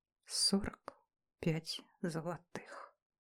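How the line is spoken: Whisper in pain. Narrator (Russian): прошептала я, прежде чем лавина боли накрыла меня с головой

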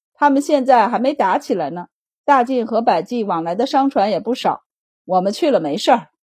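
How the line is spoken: Laughing. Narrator (Chinese): 白善笑道

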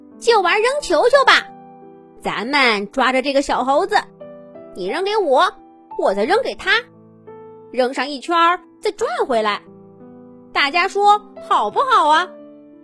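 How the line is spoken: Monkey's shrill voice. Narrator (Chinese): 长脸猴尖声说

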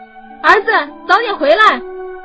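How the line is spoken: Worried calling out. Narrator (Chinese): 苟某的妻子不放心的在后面喊道

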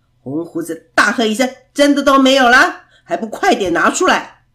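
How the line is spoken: Thunderous booming voice. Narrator (Chinese): 那声音真像雷鸣，震得人耳朵痛

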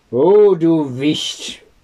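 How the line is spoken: Called out. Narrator (German): rief

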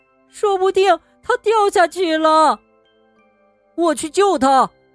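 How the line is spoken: Squirrel squeaking. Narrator (Chinese): 松鼠吱吱叫

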